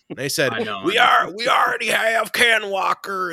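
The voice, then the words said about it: Put-on Southern American accent. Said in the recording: “I gave the nerds a Southern accent.”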